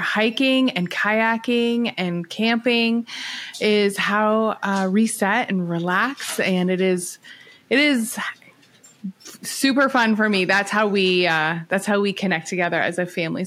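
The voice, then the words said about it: Canadian accent. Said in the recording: “you might hear my accent. I am Canadian. ... Let your Canadian accent shine”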